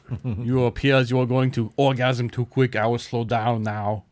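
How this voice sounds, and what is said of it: Poor imitation of another person's voice. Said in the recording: “That's a terrible Arnold impersonation.”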